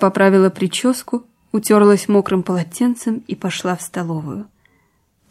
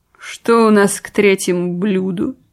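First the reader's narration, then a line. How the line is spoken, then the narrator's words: Languid, suffering question. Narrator (Russian): спросила томным страдальческим голосом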